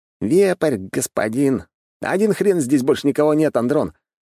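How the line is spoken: Smirking scrawny man. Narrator (Russian): хмыкнул щуплый

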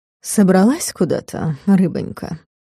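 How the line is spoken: Sugary cold cooing. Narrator (Russian): проворковал слащаво-холодно оборотень

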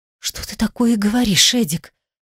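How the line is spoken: Whispered reply. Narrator (Russian): Шепотом отозвалась

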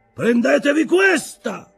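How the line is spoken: Captain's quick shout. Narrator (Italian): gridò il capitano, rapido come un eco

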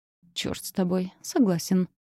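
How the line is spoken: Grumbled. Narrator (Russian): буркнул

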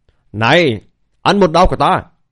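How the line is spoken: Loud shout. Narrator (Vietnamese): Hắn quát lớn

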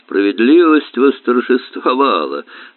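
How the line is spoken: Smirking grunt. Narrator (Russian): хмыкнул Берн

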